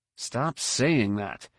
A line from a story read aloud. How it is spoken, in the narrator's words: muttered